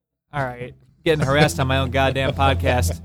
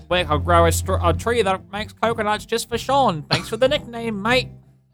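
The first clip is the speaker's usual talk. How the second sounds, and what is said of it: Put-on New Zealand accent. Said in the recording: “That's a New Zealand accent.”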